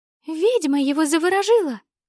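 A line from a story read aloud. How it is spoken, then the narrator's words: Tiny creature squeaking. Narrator (Russian): пропищало одно из крошечных существ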